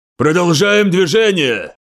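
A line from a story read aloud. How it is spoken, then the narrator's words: Roaring. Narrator (Russian): взревел Вен Бруин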